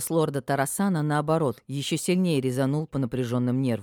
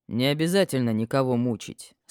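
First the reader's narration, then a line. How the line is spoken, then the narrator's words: Calm. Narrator (Russian): спокойно произнес дракон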